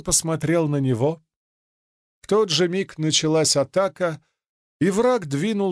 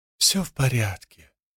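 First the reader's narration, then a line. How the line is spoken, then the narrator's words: Whisper. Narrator (Russian): прошептал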